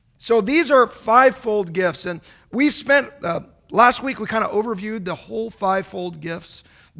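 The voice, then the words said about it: Voice giving out, strained. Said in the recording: “I'm losing my voice already.”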